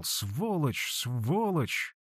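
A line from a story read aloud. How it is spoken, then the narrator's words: Barely audible whisper. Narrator (Russian): Я мог только разобрать, как он шептал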